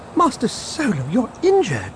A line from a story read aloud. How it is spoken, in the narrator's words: C-3PO exclaimed on seeing dried blood on his hands and face